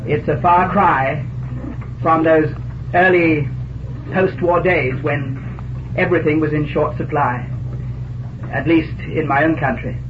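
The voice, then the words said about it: English accent. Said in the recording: “I need hardly tell you the moment I open my mouth that my home is in England.”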